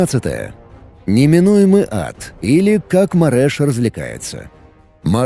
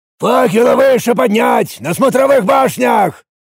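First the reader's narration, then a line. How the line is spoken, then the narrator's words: Barked order. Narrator (Russian): рявкнул я приказ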